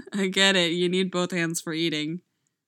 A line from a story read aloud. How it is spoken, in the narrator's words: laughs